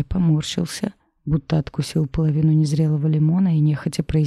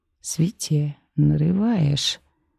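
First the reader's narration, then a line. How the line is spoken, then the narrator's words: Creaky, familiar intonation. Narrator (Russian): Проскрипел он с той самой интонацией, которая у него была раньше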